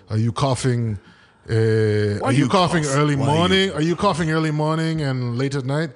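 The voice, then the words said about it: Put-on Ukrainian Irish accent. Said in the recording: “that Ukrainian Irish accent you did a minute ago”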